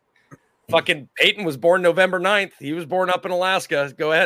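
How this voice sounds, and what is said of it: Usual voice. Nothing is said of it.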